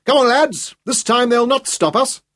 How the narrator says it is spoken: John Aitchison shouted

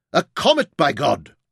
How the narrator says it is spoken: Tom shouted in wonder

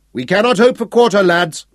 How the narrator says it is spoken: Sir Francis shouted

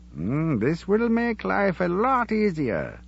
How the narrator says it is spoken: Job said cheerfully

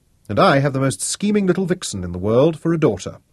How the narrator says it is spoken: he said

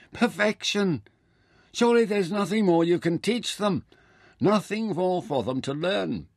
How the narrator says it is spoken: Mintaka called out spontaneously

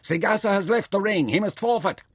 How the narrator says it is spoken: Nefer recovered in a moment and yelled at the umpire

